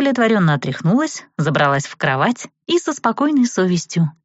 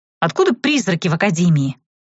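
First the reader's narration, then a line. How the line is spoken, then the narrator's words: Sleepy skeptical snort. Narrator (Russian): хмыкнула Этери, тоже просыпаясь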